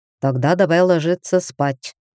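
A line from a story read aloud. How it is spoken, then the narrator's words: Even, level tone. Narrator (Russian): ровным тоном предложил Зардан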